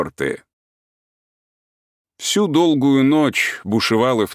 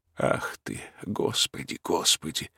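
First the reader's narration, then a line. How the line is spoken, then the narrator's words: Muttering. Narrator (Russian): слышится порою бормотанье Ковалева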